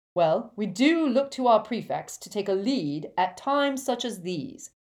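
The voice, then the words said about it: Pompous, self-important character voice. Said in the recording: “in a good imitation of Percy's most pompous manner”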